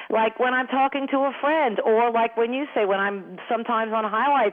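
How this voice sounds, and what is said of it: Thick New York accent. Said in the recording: “any accent, and especially a thick one like mine ... I just get back in that New York flow ... I'm glad I still have that accent”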